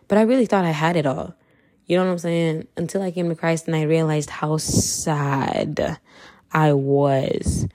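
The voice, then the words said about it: Kenyan accent. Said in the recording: “I'm Kenyan, so if you hear my accent, yeah, you heard it... my Kenyan accent”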